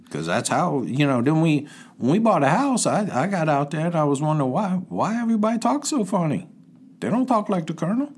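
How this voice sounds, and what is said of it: Cajun-influenced American accent. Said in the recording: “I picked up a dialect ... people often think ... that I'm African-American ... that's how the Colonel got the Cajun accent”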